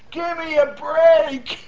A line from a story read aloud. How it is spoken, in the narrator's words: he's hollering